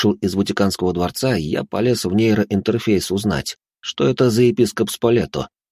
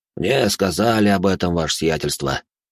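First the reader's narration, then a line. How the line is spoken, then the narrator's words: Sigh. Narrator (Russian): вздохнул он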